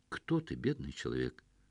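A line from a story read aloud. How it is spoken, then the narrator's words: Flat toneless voice, from darkness. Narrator (Russian): совершенно бесцветным голосом спросили из самого темного угла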